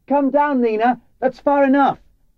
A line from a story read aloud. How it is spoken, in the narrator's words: I knew she could fall at any moment, and I shouted